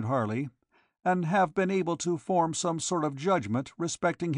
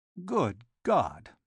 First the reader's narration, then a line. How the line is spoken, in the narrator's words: muttered the detective